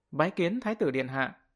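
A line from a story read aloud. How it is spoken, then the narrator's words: Crowd of warriors, loud. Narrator (Vietnamese): tất cả võ giả đều quỳ rạp trên đất, cất cao giọng nói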